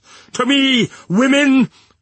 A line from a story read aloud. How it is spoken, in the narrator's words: cried Madame, his wife